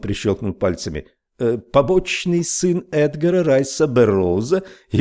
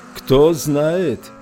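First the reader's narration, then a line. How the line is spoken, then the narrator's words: Yelling over engine roar. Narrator (Russian): орал Фриц Вонг, перекрикивая рев мотора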